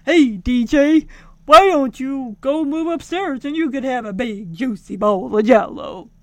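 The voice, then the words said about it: Weak imitation of another person's voice. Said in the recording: “impersonates Bill Cosby ... I can't do Cosby ... That was my lame attempt”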